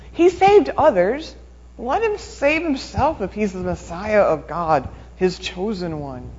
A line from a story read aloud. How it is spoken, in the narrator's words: the leaders scoffed at him, saying